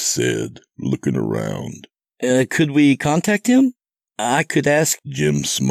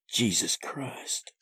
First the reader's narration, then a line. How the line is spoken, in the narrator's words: Seth muttered